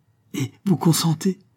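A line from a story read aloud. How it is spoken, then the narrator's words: Joyful exclamation. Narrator (French): s'écria-t-il joyeux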